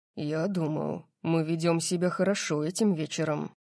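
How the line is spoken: Close mutter from behind. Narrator (Russian): пробормотал Дариус позади меня

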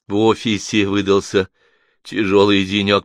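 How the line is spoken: Repeated then laughing. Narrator (Russian): повторила Алиса и рассмеялась

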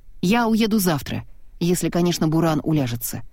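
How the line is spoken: Cold. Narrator (Russian): холодно добавила она

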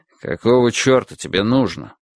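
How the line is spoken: Gruff mutter. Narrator (Russian): буркнул Финлей

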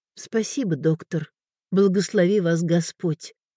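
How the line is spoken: Quiet. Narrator (Russian): сказала Элеонора тихо

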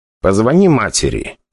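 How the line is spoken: Plain. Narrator (Russian): сказал мне Игорь

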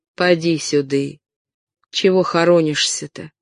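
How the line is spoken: Slow speech. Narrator (Russian): медленно заговорил дворник

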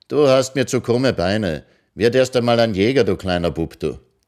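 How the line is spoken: Called across. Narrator (German): rief sie hinüber

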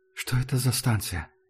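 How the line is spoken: Whispered question. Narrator (Russian): шепотом спросил Артем

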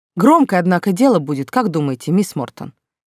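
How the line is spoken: Quiet question. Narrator (Russian): тихо спросил Нокс

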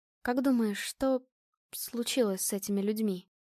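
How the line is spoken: Quiet question. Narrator (Russian): тихо спросила Настя

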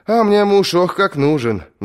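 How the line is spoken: Sighing. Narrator (Russian): вздохнула она

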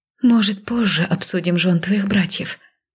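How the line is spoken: Muttered. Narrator (Russian): пробормотала

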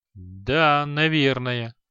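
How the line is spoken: Uncertain agreement. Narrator (Russian): неуверенно согласился Креол

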